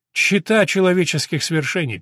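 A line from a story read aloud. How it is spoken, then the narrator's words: Sad. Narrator (Russian): печально произнес доктор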